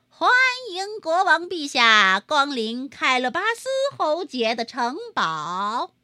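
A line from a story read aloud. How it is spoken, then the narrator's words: Loud announcement. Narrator (Chinese): 猫听到马车通过吊桥的声音，就跑到院子里大声说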